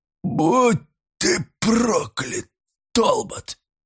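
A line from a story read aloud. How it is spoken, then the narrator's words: Hoarse desperate anguished whisper. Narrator (Russian): Выругался он хриплым, отчаянным, мучительным шепотом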